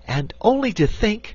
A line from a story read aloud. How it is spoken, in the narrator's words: cried Dorothy